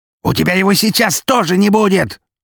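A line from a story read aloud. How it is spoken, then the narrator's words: Yelling. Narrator (Russian): заорал он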